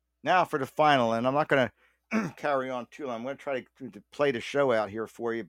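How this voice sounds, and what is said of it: Slightly raspy voice. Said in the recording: “I had my third cold ... you can probably hear it in my voice. It's a little bit raspy.”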